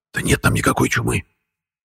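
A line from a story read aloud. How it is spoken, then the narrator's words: Furious hiss. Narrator (Russian): Яростно зашипел Матвей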